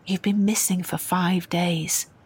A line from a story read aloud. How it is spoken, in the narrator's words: Dwayne said gently